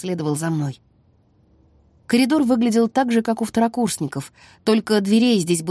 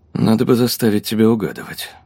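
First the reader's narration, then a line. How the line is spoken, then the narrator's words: Muttered. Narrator (Russian): пробормотал он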